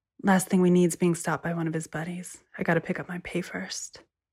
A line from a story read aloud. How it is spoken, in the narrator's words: she said quietly